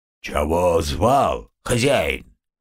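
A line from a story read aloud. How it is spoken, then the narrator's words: Sudden deep bass voice. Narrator (Russian): неожиданно басом спросил домовой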